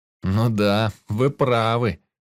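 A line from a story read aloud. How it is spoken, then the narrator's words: Feigned sigh. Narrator (Russian): наигранно вздохнул я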